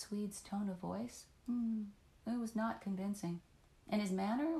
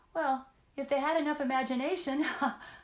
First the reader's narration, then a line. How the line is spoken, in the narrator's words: laughed loudly